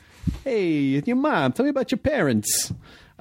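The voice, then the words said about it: Put-on gangster accent. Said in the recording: “I still got to have like a gangster accent.”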